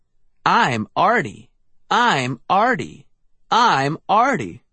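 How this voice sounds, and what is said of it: Tinny, mechanical voice. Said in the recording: “in a tinny voice.”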